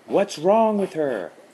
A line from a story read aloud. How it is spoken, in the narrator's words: Adam asked, having to pitch his voice high above the chanting Shih Tzu